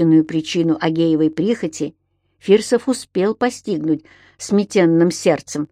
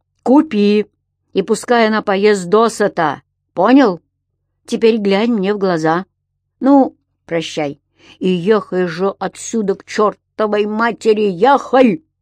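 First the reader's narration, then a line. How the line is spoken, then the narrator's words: Loud bark. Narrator (Russian): Гаркнул он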